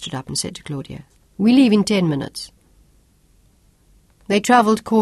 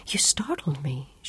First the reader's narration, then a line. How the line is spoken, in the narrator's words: she gasped